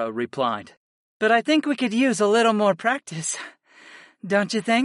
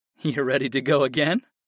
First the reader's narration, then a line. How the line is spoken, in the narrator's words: I chuckled